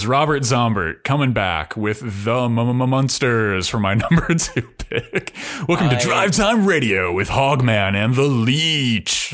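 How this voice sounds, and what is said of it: Drive-time radio DJ voice. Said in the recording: “I do that voice, ... my alternate ego as a Drive Time Radio DJ.”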